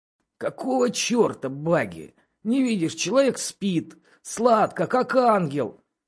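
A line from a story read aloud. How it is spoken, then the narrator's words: Displeased creaky voice. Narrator (Russian): проскрипел недовольный Чет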